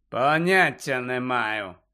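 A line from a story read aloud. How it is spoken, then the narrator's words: Cold reply. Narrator (Ukrainian): холодно відповів Снейп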